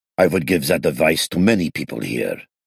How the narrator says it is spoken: Moses grumbled over his mug

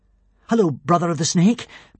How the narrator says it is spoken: panted Hiccup

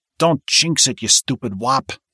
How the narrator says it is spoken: hissed Oliver

